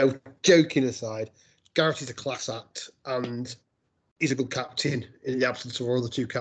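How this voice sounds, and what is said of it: Usual voice. Nothing is said of it.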